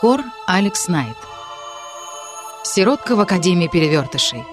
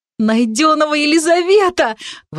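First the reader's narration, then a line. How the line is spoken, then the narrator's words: Happy exclamation. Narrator (Russian): воскликнула я счастливо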